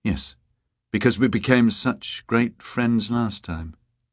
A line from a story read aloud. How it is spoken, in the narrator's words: Beata said dryly